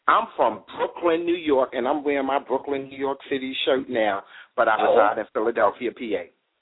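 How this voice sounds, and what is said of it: New York Brooklyn accent. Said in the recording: “I heard your accent, so I knew it was somewhere out there in New York”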